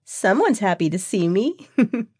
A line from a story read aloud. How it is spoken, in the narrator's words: giggled Mandy